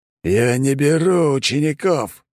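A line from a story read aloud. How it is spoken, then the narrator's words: Deathly rasp. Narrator (Russian): прохрипел он, и от каждого звука веяло самой смертью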